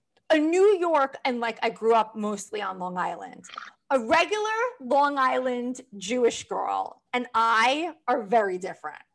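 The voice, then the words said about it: New York Manhattan accent. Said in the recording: “Accent? Yeah, I hear the accent, but you sound like you're from Manhattan... Like upper west side, east side”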